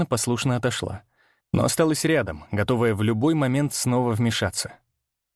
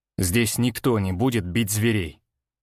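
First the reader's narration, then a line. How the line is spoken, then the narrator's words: Cold statement. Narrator (Russian): холодно произнес я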